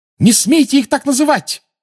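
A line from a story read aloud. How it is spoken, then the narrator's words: Furious shout. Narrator (Russian): разъяренно крикнула Гермиона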